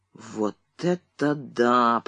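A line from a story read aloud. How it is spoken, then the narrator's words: Muttering. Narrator (Russian): пробормотал он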